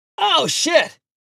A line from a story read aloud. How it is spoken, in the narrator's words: Tommy, the referee, shouted at his nasty fall